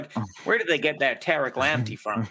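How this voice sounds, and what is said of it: Put-on American accent. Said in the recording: “That's just my American accent for Todd. ... Can we stop with the Americanism?”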